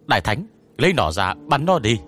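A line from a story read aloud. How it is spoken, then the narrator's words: Shout over gunfire. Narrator (Vietnamese): Trong khi nã đạn, tôi hét lên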